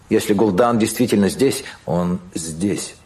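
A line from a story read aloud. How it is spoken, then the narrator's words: Plain. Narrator (Russian): сказал Кадгар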